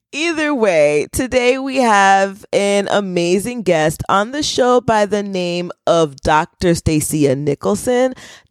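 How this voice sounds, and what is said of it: Lower, slightly scratchy voice. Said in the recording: “my voice is an octave lower today and a little scratchy”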